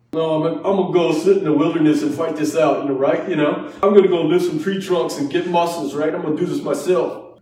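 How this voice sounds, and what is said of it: Bad Rocky Balboa impression. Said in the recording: “Rocky Balboa ... Horrible Rocky impersonation”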